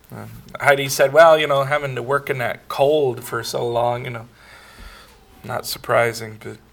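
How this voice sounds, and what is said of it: Rough, nasal voice. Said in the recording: “my voice is a little rough. I've been having a little bit of nasal trouble”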